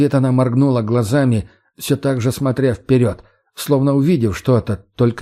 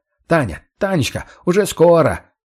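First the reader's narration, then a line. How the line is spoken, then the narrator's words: Falsely cheerful, feigned concern shout. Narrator (Russian): кричал он ей наигранно весело, как-то лживо-участливо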